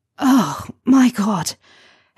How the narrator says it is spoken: Harry pants against Draco's sticky, bitter lips when he's finished

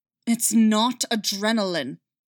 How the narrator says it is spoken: Callus snarled back

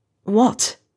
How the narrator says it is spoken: snaps

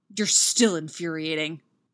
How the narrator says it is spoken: Derek growls

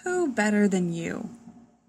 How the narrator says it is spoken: Superman sighs

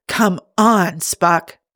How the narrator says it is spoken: so loudly, he might as well have been screaming

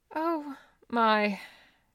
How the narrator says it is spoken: Judy murmured faintly

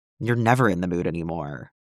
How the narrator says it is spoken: Khan muttered

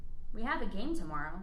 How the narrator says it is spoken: the coach said

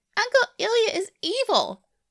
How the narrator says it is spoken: Ruby shrieks out of nowhere

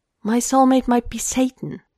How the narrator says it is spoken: he blurts out

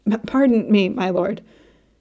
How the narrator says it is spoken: gasped out between coughs

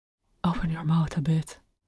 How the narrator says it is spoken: Langa mumbled

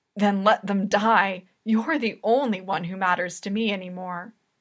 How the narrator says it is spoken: his voice broken as he says

